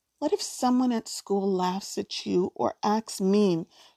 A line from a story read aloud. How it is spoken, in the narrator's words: she asks quietly